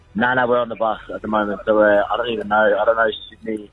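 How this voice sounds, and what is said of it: Hoarse, partly lost voice. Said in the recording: “My voice is a bit gone. Um, caught the mad little elbow in throat”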